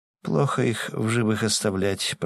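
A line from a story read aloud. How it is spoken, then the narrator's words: Mutter. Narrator (Russian): пробормотала она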